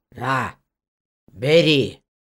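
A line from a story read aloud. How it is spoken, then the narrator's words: Witch grumbling. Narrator (Russian): буркнула ведьма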